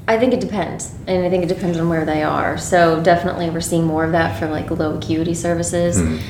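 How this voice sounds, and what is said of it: Voice sounds congested from a cold. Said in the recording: “I have a cold right now.”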